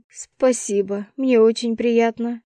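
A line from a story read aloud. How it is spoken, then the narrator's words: Snorted. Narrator (Russian): фыркнула я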